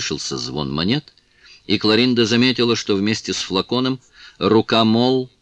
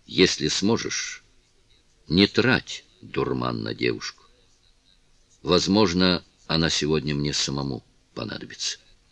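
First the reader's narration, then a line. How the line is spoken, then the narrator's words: Quiet speech. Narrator (Russian): Сэр Джеральд тихо произнес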